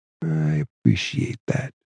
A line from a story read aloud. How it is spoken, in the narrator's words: Tony D said quietly